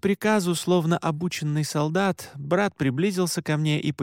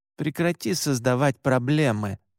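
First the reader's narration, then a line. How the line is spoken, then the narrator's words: Hissed through teeth. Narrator (Russian): сквозь зубы прошипел Оскар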